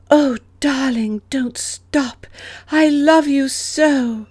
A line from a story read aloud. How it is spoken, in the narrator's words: making little moaning sounds